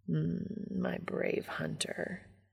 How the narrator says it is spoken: Castiel murmurs

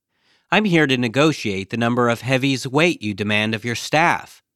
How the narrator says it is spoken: says Timothy Nelson

